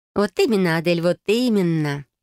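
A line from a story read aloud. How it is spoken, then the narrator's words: Playful, laughing. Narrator (Russian): подмигнула сестра и рассмеялась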